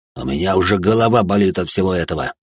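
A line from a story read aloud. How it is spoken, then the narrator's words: Displeased voice. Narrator (Russian): Недовольным голосом произнес тот, кого раньше называли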